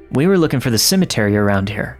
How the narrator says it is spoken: my girlfriend said

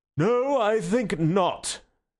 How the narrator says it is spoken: said the president with a yawn like an unobtrusive earthquake

